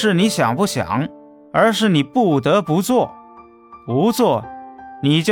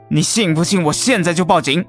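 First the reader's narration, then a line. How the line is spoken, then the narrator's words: Angry. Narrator (Chinese): 于强愤怒了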